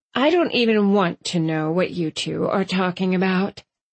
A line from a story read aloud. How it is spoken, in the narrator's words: Mom sighed